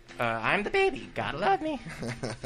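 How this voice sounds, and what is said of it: Dinosaur character impression. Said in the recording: “your best dinosaur impression”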